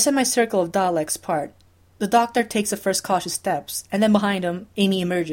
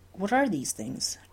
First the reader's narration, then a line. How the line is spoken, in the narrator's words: Rory asks in a whisper